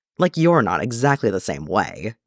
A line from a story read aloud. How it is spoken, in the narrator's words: Clint scoffs